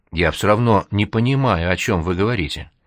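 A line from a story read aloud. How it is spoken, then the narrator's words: Quiet but firm. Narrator (Russian): Он тихо, но твердо сказал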